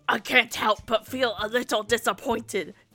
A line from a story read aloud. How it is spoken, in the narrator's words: John grumbled